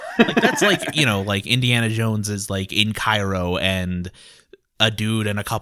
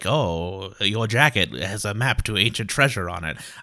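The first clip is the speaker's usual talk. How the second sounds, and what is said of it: Put-on vague foreign accent. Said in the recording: “I don't know what accent that is. It's vaguely racist.”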